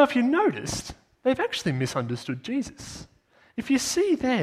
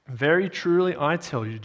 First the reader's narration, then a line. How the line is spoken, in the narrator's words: Jesus answered